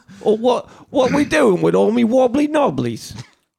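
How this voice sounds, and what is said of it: Put-on English accent. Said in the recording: “talk like you're from there ... English accent”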